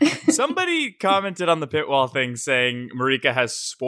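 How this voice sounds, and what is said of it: Usual voice. Nothing is said of it.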